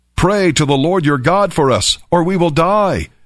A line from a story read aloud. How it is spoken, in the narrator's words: they cried out